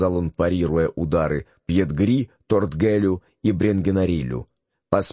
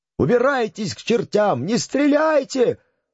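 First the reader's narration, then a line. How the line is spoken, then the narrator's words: Choking, yelling. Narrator (Russian): орал Бренгенариль, задыхаясь под жилистой рукой Скопена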